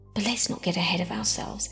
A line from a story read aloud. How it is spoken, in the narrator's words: muttered